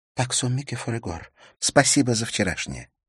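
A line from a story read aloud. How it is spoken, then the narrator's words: Whisper. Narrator (Russian): прошептала она Харри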